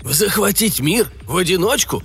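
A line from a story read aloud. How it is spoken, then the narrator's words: Breathless exhale. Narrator (Russian): выдохнул Конант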